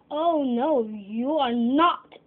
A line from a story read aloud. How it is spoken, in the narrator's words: roared the troll